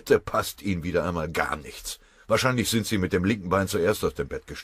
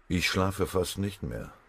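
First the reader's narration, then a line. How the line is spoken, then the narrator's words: Gloomy mutter. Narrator (German): murmelte der Stabschef düster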